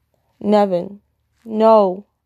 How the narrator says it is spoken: he cries through his tears

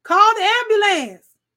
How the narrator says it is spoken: yelled another

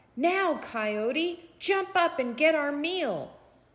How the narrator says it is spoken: cried

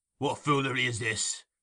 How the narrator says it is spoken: demanded Sikes

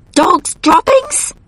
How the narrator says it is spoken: I cried

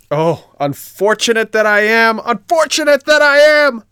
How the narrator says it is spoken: cried Pinocchio

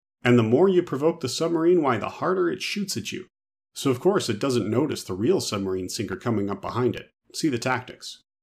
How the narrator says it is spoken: continues cheerfully

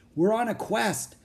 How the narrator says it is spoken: said Jack

